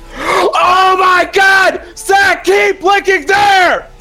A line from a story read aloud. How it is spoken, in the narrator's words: Kelly screamed